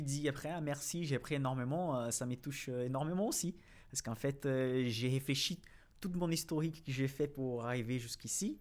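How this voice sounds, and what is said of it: Brazilian accent speaking French. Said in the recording (French): “pourquoi il a cet accent, il parle des actions françaises avec un accent brésilien”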